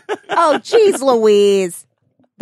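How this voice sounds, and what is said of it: Imitates another person's voice. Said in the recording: “That's my Ryan impression.”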